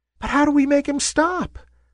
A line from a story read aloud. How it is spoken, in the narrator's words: squeaked a wispy little cloud